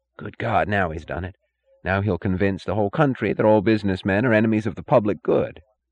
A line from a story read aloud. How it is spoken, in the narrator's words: in bewildered indignation, and he whispered to Larkin